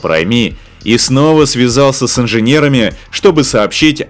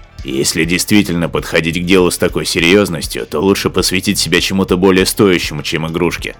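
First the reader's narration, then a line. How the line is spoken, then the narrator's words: Grumbling. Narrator (Russian): заворчал Крадж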